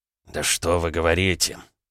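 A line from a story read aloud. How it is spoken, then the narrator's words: Muttering. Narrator (Russian): пробормотал Волков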